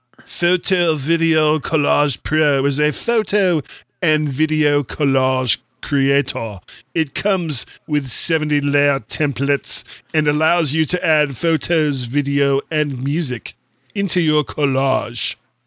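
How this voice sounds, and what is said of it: Put-on accent, voice shifting. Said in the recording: “my voice is changing as I'm doing this accent”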